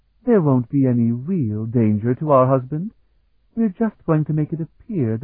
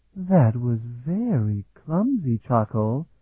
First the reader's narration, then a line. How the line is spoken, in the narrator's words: Elisun drawled